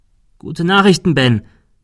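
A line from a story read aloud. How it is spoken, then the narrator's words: Calling out. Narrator (German): rief er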